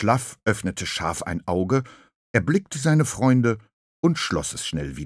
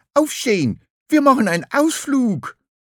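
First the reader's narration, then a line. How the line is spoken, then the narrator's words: Calling out. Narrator (German): Lachmöwe rief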